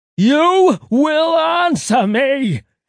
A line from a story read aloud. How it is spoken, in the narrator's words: Angel screamed, throat hurting